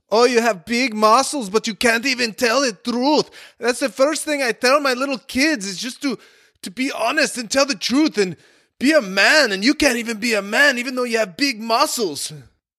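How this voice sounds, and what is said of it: Imitated German accent, scolding. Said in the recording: “He just laid into me in his German accent.”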